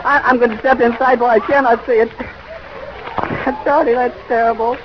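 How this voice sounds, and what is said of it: Breathless, strained, voice giving out. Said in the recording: “I can't talk ... I can hardly breathe ... I've lost my voice”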